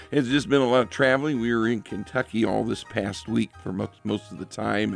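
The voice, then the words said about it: Strained, worn-out voice. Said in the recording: “even if my voice doesn't quite sound like it here tonight ... my voice is not the greatest right now”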